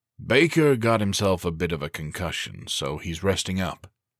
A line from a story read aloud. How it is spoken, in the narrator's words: he said thickly